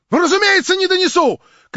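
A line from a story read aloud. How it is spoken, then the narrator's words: Shouted twice as loud. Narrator (Russian): крикнул вдвое сильнее Хромой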